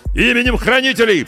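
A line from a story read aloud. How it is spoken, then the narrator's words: Distant shout. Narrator (Russian): прокричали по ту сторону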